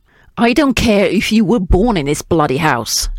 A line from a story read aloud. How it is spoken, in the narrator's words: snapped the soldier